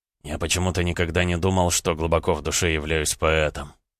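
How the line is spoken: Quiet reply. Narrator (Russian): Дмитрий отвечал тихо

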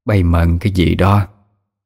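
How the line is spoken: Deep hoarse question. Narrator (Vietnamese): bà hai cất tiếng ồm ồm hỏi

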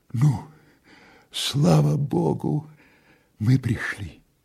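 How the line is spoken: Weak woman's voice. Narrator (Russian): сказала слабым голосом татарка

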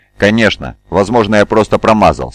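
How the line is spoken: Angry reply. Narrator (Russian): сердито ответил Мавин

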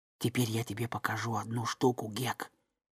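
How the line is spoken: Whisper. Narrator (Russian): Том прошептал

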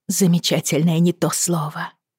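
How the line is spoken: Breathless exhale. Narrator (Russian): выдохнула Бриана

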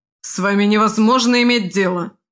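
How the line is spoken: Irritated barking. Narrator (Russian): раздраженно рявкнул Симая

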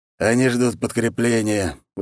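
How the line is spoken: Tired. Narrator (Russian): устало произнес Волк

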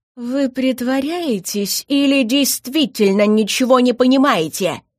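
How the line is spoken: Growl. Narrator (Russian): рыкнул магистр

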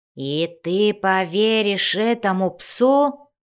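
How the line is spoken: Growl. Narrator (Russian): зарычал Бреннер

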